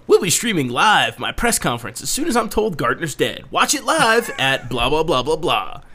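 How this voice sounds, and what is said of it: Mock newscaster voice. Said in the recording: “I like your newscaster voice. It's like tonight at 9.”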